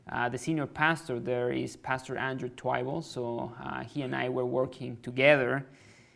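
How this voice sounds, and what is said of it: Mexican accent in English. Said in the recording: “I'm from Mexico, like I said. That's why I have an accent... Why does he have an accent?”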